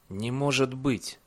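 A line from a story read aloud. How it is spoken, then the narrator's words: Whisper. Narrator (Russian): прошептал он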